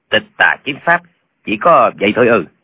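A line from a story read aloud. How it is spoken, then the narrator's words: Cold mocking laugh. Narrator (Vietnamese): hắn mới cười nhạt nói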